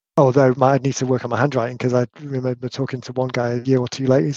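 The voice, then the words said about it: British accent. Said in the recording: “my accent stands out a little bit when I'm in North America ... British guy with beard”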